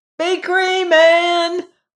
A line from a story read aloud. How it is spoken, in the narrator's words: Robert shouted